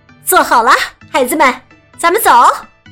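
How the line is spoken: Calling out. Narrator (Chinese): 妈妈喊道

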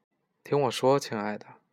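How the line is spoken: Gentle, tender. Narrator (Chinese): 阿拉贝拉夫人用温柔的声音给了他回应

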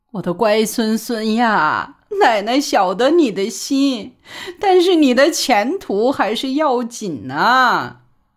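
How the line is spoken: Crying. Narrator (Chinese): 就哭，说

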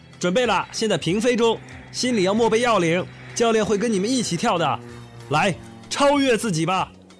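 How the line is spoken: Calling out loudly. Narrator (Chinese): 卡尔喊话

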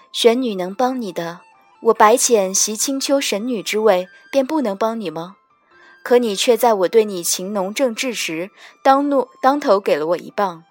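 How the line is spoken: Calm, detached. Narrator (Chinese): 我 淡淡道

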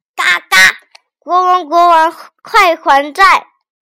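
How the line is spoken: Angry shouting. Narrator (Chinese): 鸭屁股就生气的大叫道

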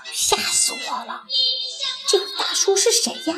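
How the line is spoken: Frightened mice muttering softly. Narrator (Chinese): 三只小老鼠 小声嘀咕开了

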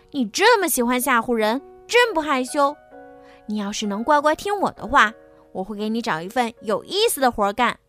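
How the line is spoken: Shouting. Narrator (Chinese): 埃里克对狮子大喊

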